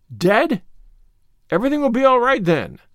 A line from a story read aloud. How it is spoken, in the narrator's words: cried the rosy lady jubilantly